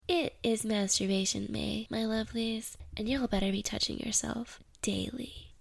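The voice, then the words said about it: Sick-sounding voice. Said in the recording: “I got deathly sick at the beginning of the month. I'm still sick. You can probably hear it in my voice.”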